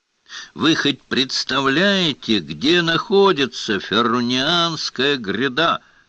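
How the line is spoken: Loud exclaiming. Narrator (Russian): громко воскликнул гор Рошаль

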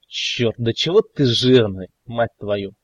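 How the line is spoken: Grumbling. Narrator (Russian): пробурчал мэр

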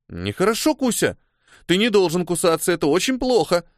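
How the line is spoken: Exclaimed. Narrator (Russian): воскликнула Микки

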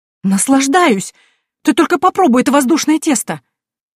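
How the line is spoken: Smiling exclamation. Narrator (Russian): С улыбкой воскликнула женщина

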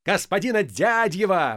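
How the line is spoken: Delighted shout. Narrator (Russian): восторженно закричал Полисов

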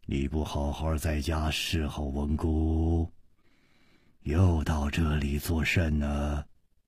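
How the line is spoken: Deep commanding voice. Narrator (Chinese): 这个声音 低沉之中隐隐有微，一听那就知道是冠宇发号施令的人

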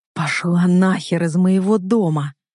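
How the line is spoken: Through gritted teeth. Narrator (Russian): Цежу сквозь зубы

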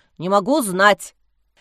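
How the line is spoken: Deafening bark. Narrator (Russian): рявкнул посыльный так, что у Лизы зазвенело в ушах

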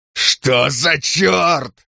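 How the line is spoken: Yelling. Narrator (Russian): заорал он

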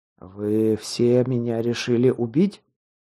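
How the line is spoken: Strained, forced out. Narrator (Russian): кое-как выдавил я, стараясь держать себя в руках

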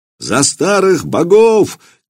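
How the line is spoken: Crowd shouting in unison. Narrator (Russian): кричала тогда Вече в изумительном единении с Владимиром и дядей его Добрыней

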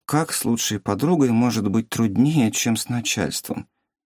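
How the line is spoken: Drunken mumble. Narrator (Russian): Опьянев, пробормотала Юмин

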